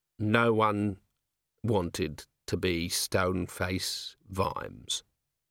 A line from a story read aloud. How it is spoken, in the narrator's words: Vimes said coldly